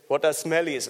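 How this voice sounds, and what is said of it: Poor imitation South African accent. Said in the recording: “That's my South African accent. not very good at it.”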